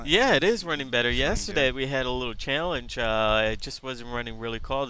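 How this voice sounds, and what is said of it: Deep, congested sick voice. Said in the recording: “Still got that cold there, huh?... I still have the radio voice... I'm still sick”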